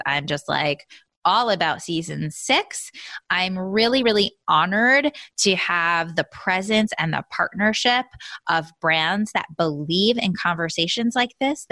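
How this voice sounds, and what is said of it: Excited, energetic voice. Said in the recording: “I am pumped, you guys. I don't know if you can tell in my voice.”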